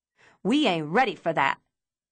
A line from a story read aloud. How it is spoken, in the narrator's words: Deborah snapped, her eyes wide and panicked